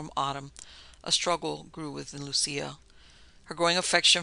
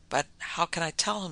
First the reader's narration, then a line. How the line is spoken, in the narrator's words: sobbed the girl